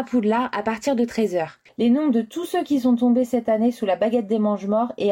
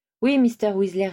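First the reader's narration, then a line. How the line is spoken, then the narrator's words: Plain. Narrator (French): répondit Harry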